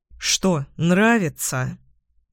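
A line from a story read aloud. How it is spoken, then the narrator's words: Gloomy question. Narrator (Russian): Мрачно спрашивает он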